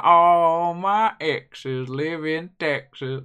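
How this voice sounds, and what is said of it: Bad put-on country accent. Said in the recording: “the country one ... your really bad accent”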